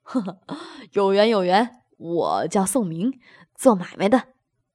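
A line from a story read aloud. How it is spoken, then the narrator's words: Hearty laugh. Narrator (Chinese): 宋明哈哈一笑，道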